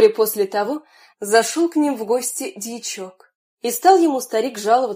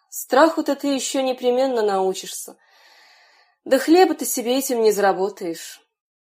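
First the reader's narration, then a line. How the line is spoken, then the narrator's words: Father's sighing reply. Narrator (Russian): Отец вздохнул и отвечал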